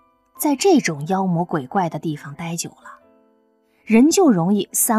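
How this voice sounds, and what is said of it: Usual voice. Nothing is said of it.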